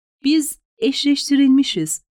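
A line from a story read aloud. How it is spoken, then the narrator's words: Plain. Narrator (Turkish): dedi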